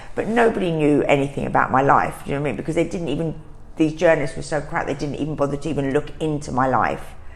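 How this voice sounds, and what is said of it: London East End accent. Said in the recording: “everyone just thought from my accent that I was just a Londoner girl ... this East End girl”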